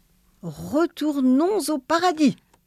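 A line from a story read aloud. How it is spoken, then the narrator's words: Exclaiming. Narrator (French): s'écria le bon Dieu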